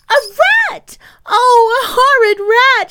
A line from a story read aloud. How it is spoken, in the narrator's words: shrieked the child